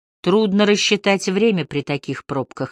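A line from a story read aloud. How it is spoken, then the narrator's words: Plain. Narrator (Russian): ответил Харри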